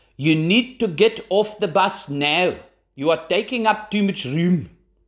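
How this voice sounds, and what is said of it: Weak put-on South African accent. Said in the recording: “Potentially not the best South African accent”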